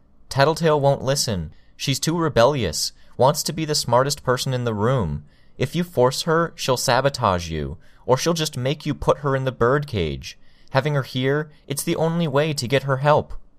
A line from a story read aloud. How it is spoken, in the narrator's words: I called out